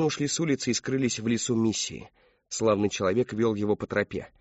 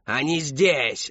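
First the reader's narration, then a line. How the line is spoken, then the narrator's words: Yelling in sleep. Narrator (Russian): заорал он, не просыпаясь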